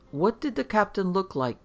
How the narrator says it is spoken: Grant timidly interrupted to ask the old man

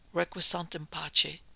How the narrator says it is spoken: murmured the priest

